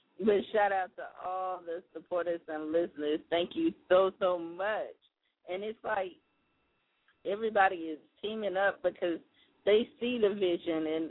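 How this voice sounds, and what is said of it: Strained, fading voice. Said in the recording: “I'm kind of losing my voice”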